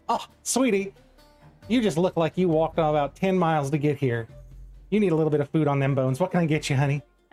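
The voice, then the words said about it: Put-on Southern accent. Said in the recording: “Wrong accent, wrong tavern keeper. This woman was Southern... this Maribella is Southern”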